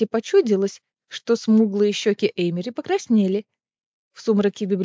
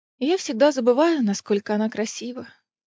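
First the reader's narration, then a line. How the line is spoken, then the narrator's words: Sighing. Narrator (Russian): вздохнула Эмери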